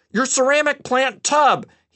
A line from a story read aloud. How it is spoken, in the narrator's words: yelled